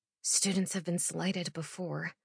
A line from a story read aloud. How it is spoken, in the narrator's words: murmur back